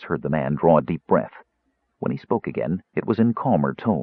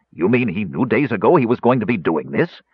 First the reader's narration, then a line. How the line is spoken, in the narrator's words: Caramon interrupted harshly